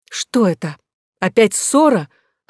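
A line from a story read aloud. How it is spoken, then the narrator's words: Exclaimed. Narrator (Russian): воскликнула королева Мария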